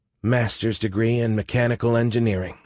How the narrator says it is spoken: she muttered

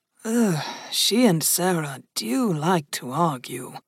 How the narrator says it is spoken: Janelle murmured

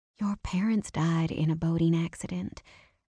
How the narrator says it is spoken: I said softly

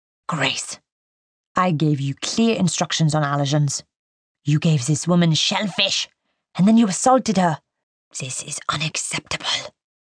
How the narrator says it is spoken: Jean-Paris hisses

